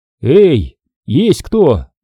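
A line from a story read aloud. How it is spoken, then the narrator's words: Fairly loud, yet restrained call. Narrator (Russian): позвал я достаточно громко, но все же стараясь не наделать лишнего шума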